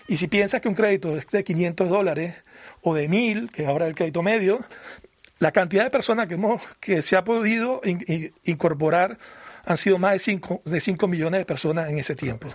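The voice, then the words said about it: Venezuelan Spanish accent. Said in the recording (Spanish): “¿De dónde te viene a ti el acento? ... De Venezuela.”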